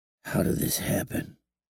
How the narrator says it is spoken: He mumbled to himself

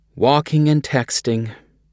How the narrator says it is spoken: a flight attendant said with a sigh

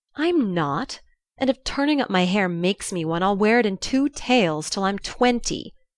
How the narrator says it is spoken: cried Jo

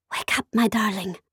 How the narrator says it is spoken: Sophia whispered in my ear

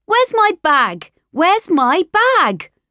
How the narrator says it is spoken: Mummy was running around the house shouting

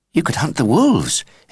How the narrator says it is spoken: exclaimed Ben suddenly

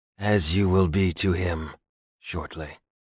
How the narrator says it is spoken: Yuri said, his voice going deathly dark and cold

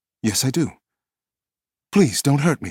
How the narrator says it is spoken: gasped

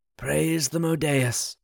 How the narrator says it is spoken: Elendir, Trilian's claret, said softly

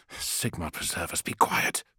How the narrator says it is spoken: Felix hissed

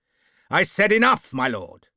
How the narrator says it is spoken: the master-at-arms shouted angrily

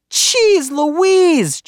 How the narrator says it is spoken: Judy hollered

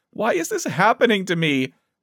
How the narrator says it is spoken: Erin sobbed

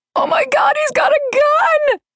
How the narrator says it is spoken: an inmate screamed

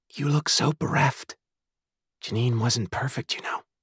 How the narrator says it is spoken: someone whispered at her side

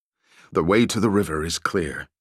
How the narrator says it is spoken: he said in a low voice

